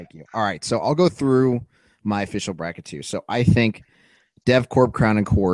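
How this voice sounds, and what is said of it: Usual voice. Nothing is said of it.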